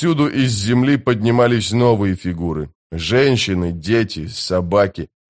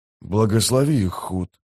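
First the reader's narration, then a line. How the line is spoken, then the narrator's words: Whispered. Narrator (Russian): прошептал Дукер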